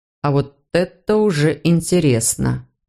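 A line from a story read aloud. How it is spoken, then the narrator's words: Drawled. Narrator (Russian): протянул тот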